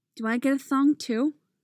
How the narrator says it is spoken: He asks, lisping a little the way children sometimes do

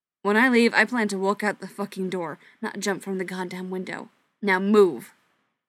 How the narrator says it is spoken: he snapped

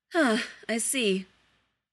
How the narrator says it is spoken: Professor McGonagall only sighed tiredly and murmured

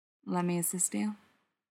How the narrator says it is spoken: murmurs warmly into her hair

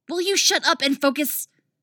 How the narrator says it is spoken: Zatanna snaps

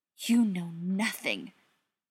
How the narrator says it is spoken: Frank hissed

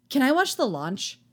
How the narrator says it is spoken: the boy asks eagerly

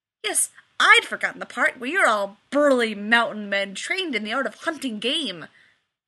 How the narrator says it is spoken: Rodney scoffed

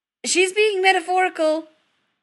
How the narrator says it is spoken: Chris says hastily

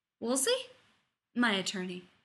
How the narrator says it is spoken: he added in an undertone for Rodney's benefit

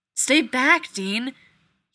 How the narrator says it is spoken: yelled

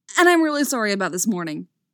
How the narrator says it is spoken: he blurts out

